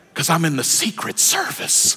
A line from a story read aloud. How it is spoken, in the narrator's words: The young man whispered back